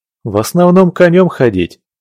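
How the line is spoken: Laughing entertainer. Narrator (Russian): рассмеялся затейник

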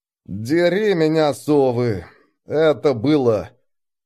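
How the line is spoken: Through gritted teeth. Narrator (Russian): Никифоров сказал сквозь зубы

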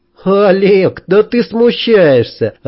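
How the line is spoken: Cheerful surprise. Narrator (Russian): она весело удивилась

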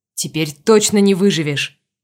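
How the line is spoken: Growled in face. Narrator (Russian): прорычал в лицо Витеру Вендиго

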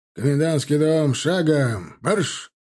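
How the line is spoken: Officer barking command. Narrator (Russian): рявкнул офицер

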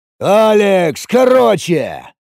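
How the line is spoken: Bark. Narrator (Russian): рявкнул Самсон

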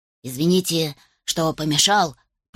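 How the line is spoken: Muttered. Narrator (Russian): пробормотал Дэвин

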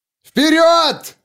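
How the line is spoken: Roaring over shoulder. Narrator (Russian): проревел он через плечо

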